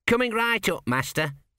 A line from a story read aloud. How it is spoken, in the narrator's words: said Gurn